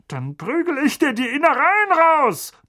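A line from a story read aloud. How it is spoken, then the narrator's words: Blustering bellow. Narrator (German): polterte Onkel Vernon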